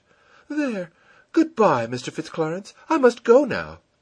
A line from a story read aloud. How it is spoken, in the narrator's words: A crimson blush sent its rich flood through her cheeks, and she exclaimed